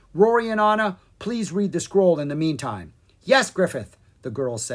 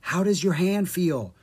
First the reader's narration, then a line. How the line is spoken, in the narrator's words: Drake whispered